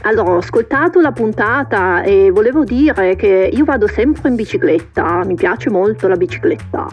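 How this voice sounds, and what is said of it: Strong foreign accent in Italian. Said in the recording (Italian): “ha questo accento molto forte, ma parla molto bene italiano ... anche questo accento si sente”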